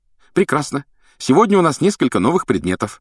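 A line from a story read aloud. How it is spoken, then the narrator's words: Cheerful. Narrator (Russian): радостно сообщила она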